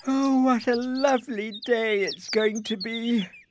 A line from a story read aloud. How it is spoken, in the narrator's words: yawned Isabel